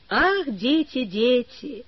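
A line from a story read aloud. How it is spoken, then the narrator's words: Sad sigh. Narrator (Russian): грустно вздохнул огорченный профессор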